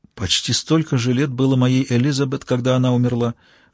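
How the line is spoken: Whisper. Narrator (Russian): шепотом подхватил Бёрли

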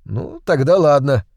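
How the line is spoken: Laughing. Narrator (Russian): засмеялся я

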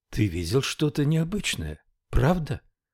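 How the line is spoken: Night whisper. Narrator (Russian): прошептала она ему среди ночи

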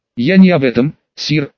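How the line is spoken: Snapping young knight. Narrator (Russian): огрызнувшись, юный рыцарь

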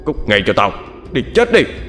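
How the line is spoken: Shouting. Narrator (Vietnamese): Hắn quát lên

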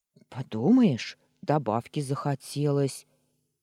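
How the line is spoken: Grumbled. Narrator (Russian): пробурчал Вальдемар

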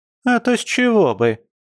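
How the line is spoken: Shrill squeal, quarrelsome woman. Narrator (Russian): взвизгнула местная скандалистка

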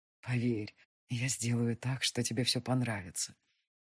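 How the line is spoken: Quiet whisper near ear. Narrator (Russian): раздался тихий шепот у моего уха

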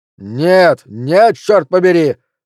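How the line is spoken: Shouting. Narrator (Russian): закричал Флинт

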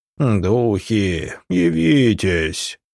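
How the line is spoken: Sepulchral voice. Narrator (Russian): гробовым голосом произнес медиум

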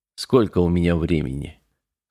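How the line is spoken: Hoarse question. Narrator (Russian): хрипло спросил Мартин

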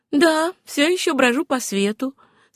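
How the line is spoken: Calm repetition. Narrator (Russian): спокойно повторила Сюзанна

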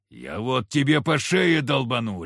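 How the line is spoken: Barked. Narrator (Russian): рявкнул Егор

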